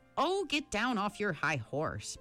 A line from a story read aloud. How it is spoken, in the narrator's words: Meg said crossly